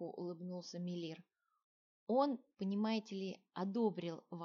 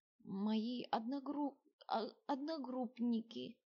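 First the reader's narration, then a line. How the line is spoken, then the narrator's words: Trembling fearful reply. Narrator (Russian): дрожащим голосом ответил Мелир, страшно боясь, что дед запретит ему общаться с приятелями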